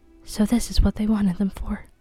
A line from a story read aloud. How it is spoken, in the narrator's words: Vera whispered